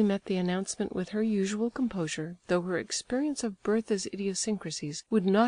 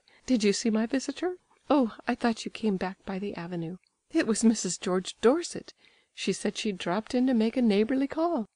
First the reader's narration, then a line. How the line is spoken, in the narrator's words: the glow deepened to an embarrassed red, and she said with a slight laugh